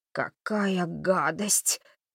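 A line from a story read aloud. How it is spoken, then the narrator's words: Nauseated groaning. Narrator (Russian): простонал Холли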